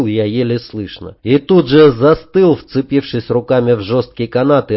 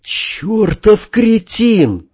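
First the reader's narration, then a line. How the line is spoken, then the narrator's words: Exasperated exhale. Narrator (Russian): выдохнул Север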